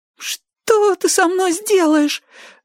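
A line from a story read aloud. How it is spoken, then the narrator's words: Trembling babble. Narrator (Russian): дрожа пролепетал потрошитель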